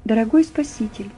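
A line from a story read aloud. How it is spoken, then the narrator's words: Quiet. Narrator (Russian): тихо начала Нина Сергеевна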